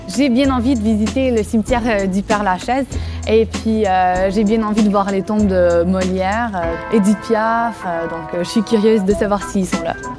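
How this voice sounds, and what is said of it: Québécois French accent. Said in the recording (French): “je viens de Montréal ... la bonne réputation des Québécois, mais dès qu'on entend mon accent”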